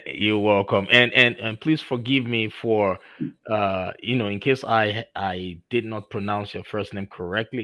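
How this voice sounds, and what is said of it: Nigerian accent. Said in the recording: “I'm originally from Nigeria, so I still have my Nigerian diction and accent in me.”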